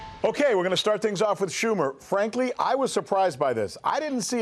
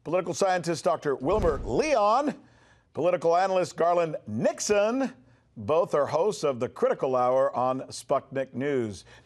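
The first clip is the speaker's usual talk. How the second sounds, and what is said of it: Dramatic crescendo, voice growing louder. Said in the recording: “Do you like the way I did that with my voice ... I crescendoed as I introduced you guys.”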